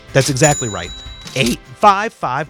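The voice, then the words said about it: Voice cracking. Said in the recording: “hear my voice cracking? I'm getting excited about it.”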